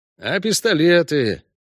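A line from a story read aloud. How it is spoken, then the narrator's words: Dejected question. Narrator (Russian): уныло спросил Зигурд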